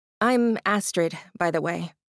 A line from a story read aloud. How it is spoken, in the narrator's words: Astrid said